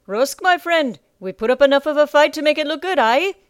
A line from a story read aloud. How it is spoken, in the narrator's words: Rusk bellowed up the stairs